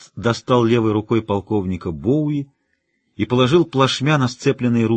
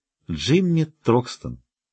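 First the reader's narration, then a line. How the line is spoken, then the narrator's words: Promising tone. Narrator (Russian): произнесла она многообещающим тоном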